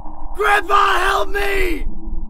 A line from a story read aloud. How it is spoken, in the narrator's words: shout